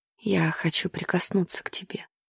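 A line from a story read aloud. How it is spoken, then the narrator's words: Whisper in ear. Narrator (Russian): прошептав мне на ухо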